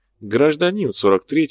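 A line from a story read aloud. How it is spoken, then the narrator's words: Calm correction, convict. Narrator (Russian): спокойно поправил зэк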